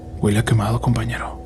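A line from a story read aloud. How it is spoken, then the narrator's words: Quiet voice. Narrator (Spanish): dijo en voz baja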